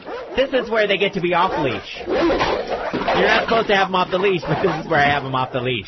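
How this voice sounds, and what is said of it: Imitates another person's voice. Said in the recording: “I'll do my impersonation of Stephanie”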